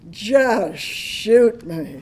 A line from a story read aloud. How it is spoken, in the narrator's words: moaned